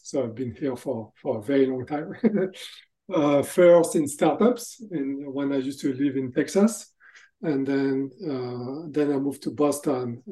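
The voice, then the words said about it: French accent. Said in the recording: “As you can hear from my accent, actually, I'm from France.”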